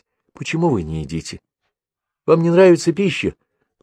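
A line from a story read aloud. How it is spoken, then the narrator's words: Tender, motherly. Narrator (Russian): говорила ласково, как мать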